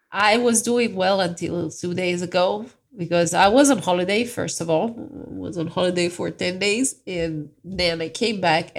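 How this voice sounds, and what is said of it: Sick-sounding voice. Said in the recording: “I got sick, as I assume you can all hear by my voice.”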